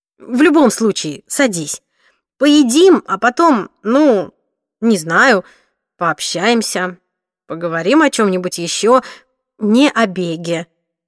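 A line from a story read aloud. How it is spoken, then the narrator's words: Forced chuckle. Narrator (Russian): он выдавил смешок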